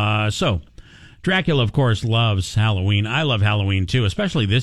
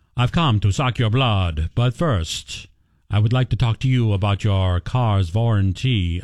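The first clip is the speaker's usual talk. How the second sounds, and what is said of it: Dracula impression. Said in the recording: “my impression of Dracula as a telemarketer”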